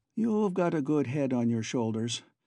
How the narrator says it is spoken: conceded Boots rather sadly

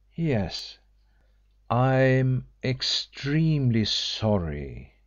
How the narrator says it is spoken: he said slowly

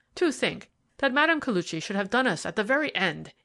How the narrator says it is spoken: he exclaimed more than once

